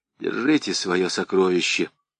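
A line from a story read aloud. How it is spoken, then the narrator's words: Breathless, panting. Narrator (Russian): Тяжело дыша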